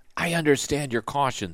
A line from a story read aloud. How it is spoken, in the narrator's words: Sylvie whispered